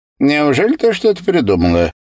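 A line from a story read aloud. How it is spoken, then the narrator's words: Snide question. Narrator (Russian): спросил Ерикан, ехидно глядя на девочку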